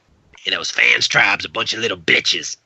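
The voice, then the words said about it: Imitates another person's voice. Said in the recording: “your impression makes me intrigued... I love my Russell impression.”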